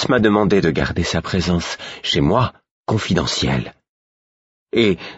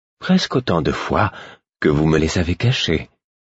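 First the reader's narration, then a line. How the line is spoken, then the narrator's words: Fool's acerbic retort. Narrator (French): répliqua le fou d'un ton acerbe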